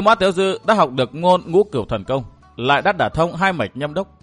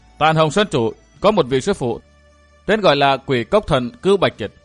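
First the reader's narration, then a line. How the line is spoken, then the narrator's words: Cold reply. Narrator (Vietnamese): Thiết địch Sử Hắc Thanh lạnh lùng đáp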